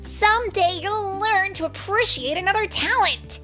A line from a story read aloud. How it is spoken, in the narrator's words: Tink yelled angrily